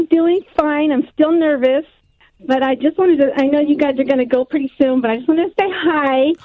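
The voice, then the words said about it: Enthusiastic American accent. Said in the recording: “you've got the best voice out of all the... got a great voice, enthusiastic. I love the American accent.”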